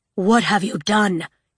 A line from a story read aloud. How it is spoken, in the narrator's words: he breathed